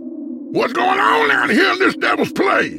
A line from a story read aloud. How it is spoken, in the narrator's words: Lemon Cake screamed